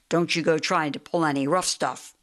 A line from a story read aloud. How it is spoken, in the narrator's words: said Officer Gregg sternly